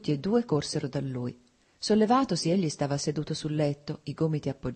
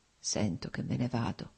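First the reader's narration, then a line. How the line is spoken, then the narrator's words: Slow, labored, precise murmur. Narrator (Italian): mormorò Nikolai, articolando lentamente le parole, con fatica ma con straordinaria precisione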